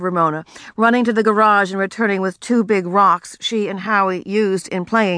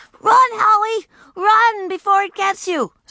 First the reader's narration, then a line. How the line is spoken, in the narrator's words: screamed Ramona